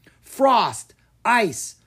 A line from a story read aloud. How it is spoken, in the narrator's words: Mina yelled